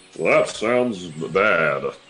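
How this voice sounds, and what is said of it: Jolly Santa Claus-like character voice. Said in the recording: “Oh, that was pretty good. ... That was a good impression. ... You sound like Santa Claus.”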